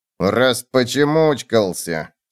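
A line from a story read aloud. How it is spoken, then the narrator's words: Grumbled through gritted teeth. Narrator (Russian): сквозь зубы проворчал клоп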